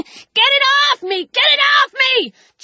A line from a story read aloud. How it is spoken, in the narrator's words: the old woman was shrieking